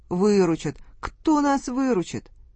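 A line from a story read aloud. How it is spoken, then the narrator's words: Whiny tearful nobleman. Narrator (Russian): Барин плаксивым голосом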